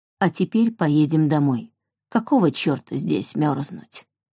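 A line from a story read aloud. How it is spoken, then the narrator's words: Calm. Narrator (Russian): спокойно сказал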